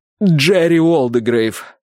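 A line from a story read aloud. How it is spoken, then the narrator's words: Forced out reluctantly. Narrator (Russian): выдавил Чарт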